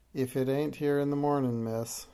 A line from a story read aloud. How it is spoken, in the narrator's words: she said